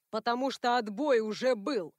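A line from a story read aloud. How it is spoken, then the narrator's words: Barked. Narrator (Russian): Рявкнул Гранд-Мэрш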